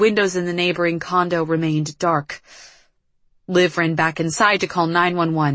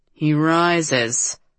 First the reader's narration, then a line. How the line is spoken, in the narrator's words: Merrick drawled